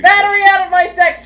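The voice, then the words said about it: Shouted loudly. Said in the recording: “could you say that louder for the court?”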